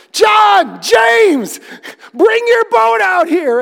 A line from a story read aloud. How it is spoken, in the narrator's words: Simon was shouting